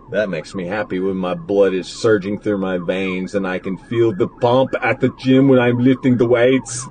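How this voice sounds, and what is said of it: Imitates another person's voice. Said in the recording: “my Arnold impersonation.”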